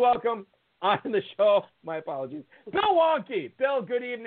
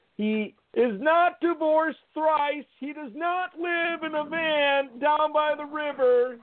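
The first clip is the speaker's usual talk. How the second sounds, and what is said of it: Chris Farley impression. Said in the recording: “my Chris Farley impression”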